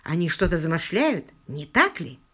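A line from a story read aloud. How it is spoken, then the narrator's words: Plain. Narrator (Russian): спросил он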